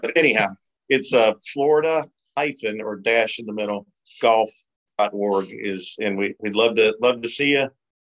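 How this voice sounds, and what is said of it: Southern Cajun twang. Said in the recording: “I've got a nasty, you know, Southern twang, and it's jacked up because I'm from Louisiana and New Orleans. So I got that Cajun, you know, Southern draw thing going on”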